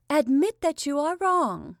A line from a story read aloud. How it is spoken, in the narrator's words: cried Varya